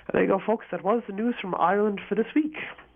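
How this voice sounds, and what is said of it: Rough, congested voice. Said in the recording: “Forgive my voice, getting over a cold here.”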